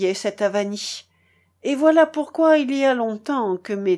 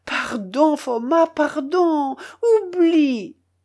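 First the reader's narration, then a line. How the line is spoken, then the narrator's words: Pleading tone. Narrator (French): dit encore mon oncle d'un ton suppliant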